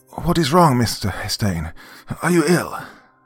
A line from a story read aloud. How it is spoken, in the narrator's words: a tonsured gnome with shell-rimmed goggles, rushed forward, exclaiming